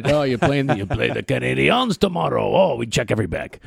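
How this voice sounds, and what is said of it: Bad put-on French accent. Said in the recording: “It's a terrible French accent”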